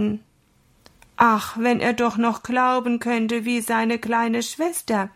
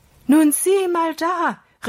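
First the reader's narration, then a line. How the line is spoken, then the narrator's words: Called out. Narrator (German): rief er Holger zu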